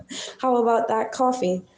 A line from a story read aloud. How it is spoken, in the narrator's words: chuckled Ivan